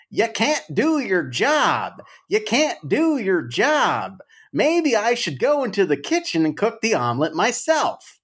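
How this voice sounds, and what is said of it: Imitates another person's voice, yelling. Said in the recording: “yelling like crazy ... that's his accent ... From Missouri, I can see it”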